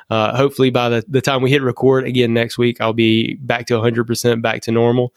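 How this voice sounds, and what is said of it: Slightly congested, stuffed-up voice. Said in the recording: “my voice is still a little bit messed up ... so that I didn't sound super stuffed up”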